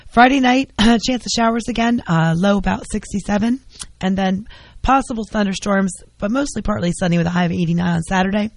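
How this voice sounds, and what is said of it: Hoarse, worn-out voice. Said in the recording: “my voice is shot from talking too much”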